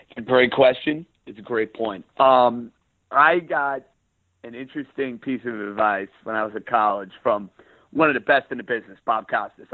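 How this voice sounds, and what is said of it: Pronounced New York accent. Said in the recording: “you have a pronounced New York accent”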